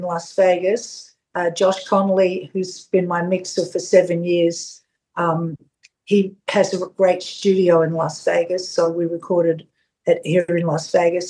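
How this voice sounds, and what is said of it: Strong Australian Melbourne accent. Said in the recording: “your Australian accent is very strong ... this really strong Australian Fitzroy Melbourne accent”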